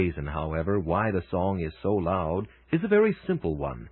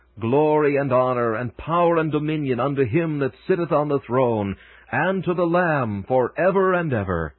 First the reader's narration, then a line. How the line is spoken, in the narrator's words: the voice of those who stand on the boundless plains of heaven and with all their might shout